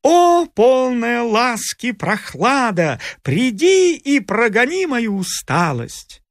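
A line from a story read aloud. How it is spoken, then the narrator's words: Loud singing. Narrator (Russian): Громко пел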